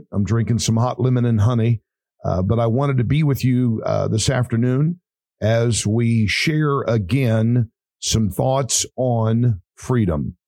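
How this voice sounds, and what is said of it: Raspy, rough voice. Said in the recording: “The radio voice is a little raspy today ... my voice is a little raspy, a little rough”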